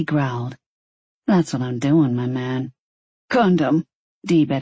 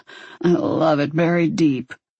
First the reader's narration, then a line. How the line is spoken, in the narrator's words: Dee rasped out